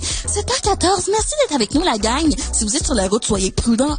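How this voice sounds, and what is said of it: Imitates a Quebec commercial radio host. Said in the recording (French): “imitation d'une radio commerciale québécoise”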